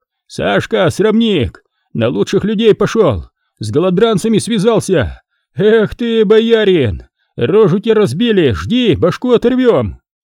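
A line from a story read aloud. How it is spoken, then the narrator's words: Shouting. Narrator (Russian): Онцефор Жабин кричал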